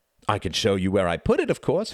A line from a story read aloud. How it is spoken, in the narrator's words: replied Reginald brightly